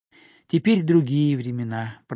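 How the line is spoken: Sighing. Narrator (Russian): продолжала она, вздохнув

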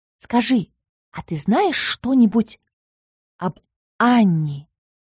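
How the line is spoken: Mysterious whisper. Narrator (Russian): неожиданно таинственным шепотом спросила Мисса

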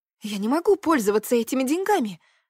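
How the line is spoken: Exclamation. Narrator (Russian): воскликнула я

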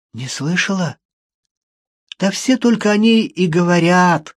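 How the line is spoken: Hoarse, breaking into sob. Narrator (Russian): Хриплый голос Джудит прервался едва ли не всхлипом

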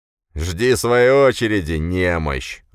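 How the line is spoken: Big man's growl. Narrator (Russian): рыкнул на него здоровяк

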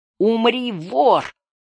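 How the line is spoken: Hissed. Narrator (Russian): прошипел Горл

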